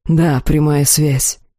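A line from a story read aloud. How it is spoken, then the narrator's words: Hoarse croak. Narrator (Russian): прохрипел Элохар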